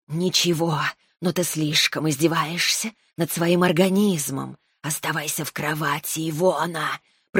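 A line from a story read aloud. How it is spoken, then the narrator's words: Irritated hiss. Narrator (Russian): прошипела змея с раздражением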